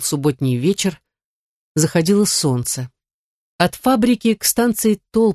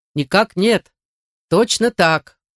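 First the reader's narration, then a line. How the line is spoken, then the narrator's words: Loud soldierly answer. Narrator (Russian): кучер отвечал громко по-солдатски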